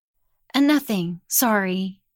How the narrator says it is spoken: said

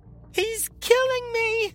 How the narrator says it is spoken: Javelin wailed, a banshee's voice that ricocheted around the walls of the crematorium

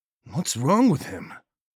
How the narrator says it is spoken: Hernandez asked

